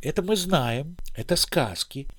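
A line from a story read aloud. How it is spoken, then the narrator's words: Quiet, smirking. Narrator (Russian): Старший сначала все усмехался и говорил тихонько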